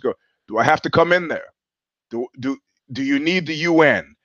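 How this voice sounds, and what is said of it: Raised, loud stern voice. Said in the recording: “raising my voice.”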